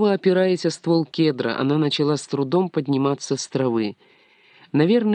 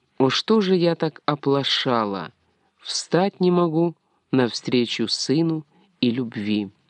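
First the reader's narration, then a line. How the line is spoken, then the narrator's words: Barely audible whisper. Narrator (Russian): едва слышно прошептала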